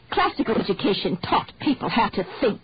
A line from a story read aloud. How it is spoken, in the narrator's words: the old lady muttered